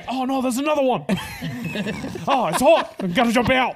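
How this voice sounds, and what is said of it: Weak put-on Australian accent. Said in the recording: “an Australian accent ... I can't do a good accent”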